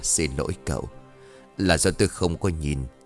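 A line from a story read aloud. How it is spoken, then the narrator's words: Gentle smiling reply. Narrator (Vietnamese): Khuôn mặt hiền hậu chỉ nhẹ nhàng mỉm cười đáp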